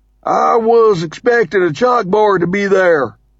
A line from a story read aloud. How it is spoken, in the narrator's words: he says in a Texarkana accent